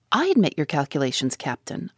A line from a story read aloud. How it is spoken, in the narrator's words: replied